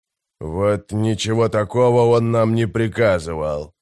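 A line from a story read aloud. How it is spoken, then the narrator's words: Grumbling. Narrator (Russian): проворчал Громила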